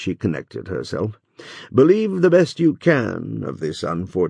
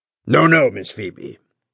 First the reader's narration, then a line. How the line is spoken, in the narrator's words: said Judge Pynchon in a voice as deep as a thunder growl